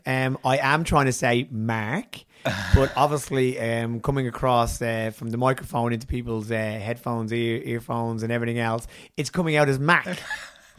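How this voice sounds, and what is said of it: Accent, says Mark like Mac. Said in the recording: “people were asking why I call you Mac instead of Mark, which we had a general laugh about because of my accent.”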